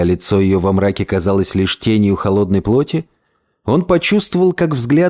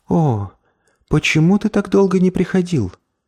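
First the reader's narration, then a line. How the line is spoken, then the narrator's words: Sad. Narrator (Russian): печально произнесла она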